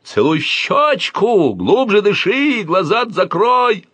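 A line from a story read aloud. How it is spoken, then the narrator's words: Pig yelling. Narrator (Russian): орал свинья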